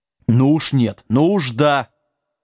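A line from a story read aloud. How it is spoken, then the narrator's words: Stern wizard shouting. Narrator (Russian): строго прикрикнул волшебник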